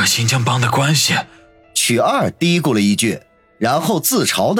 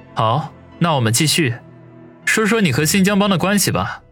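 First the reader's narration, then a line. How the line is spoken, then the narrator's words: Faint smile, casual. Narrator (Chinese): 王宇淡淡一笑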